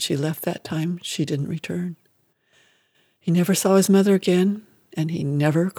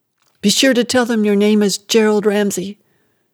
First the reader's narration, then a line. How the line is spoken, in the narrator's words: she yelled